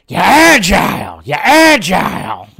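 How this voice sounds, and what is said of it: Imitates another person's voice. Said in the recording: “my terrible Al Pacino impression”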